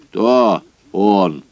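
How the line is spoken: Stern question. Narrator (Russian): спросил он строго

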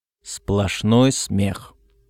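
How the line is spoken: Through clenched teeth. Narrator (Russian): сказал Роберт сквозь зубы

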